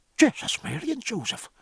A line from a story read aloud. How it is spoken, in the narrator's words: muttered Stephen